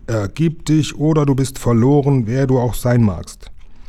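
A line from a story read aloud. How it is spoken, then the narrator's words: Loud, threatening shout. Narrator (German): rief Lukas so laut und drohend er konnte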